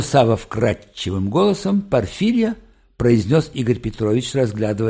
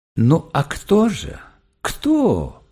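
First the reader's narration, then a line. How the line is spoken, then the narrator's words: Gentle question. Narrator (Russian): ласково спросил Игорь Петрович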